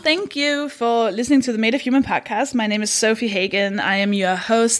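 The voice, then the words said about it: Danish accent, slightly tired voice. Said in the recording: “I'm from Denmark. That should explain the accent. ... the kind of jet-lagged undertones of my voice.”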